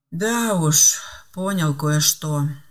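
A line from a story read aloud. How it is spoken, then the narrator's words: Weary sigh. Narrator (Russian): устало вздохнул Филипп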